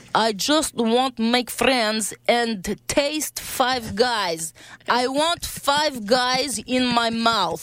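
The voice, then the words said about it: Put-on Russian accent. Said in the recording (French): “l'accent russe? ... un accent de poutine qui veut manger des frites”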